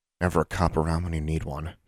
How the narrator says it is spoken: she muttered

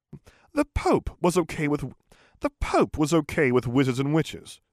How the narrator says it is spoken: exclaimed Justin even more dubiously

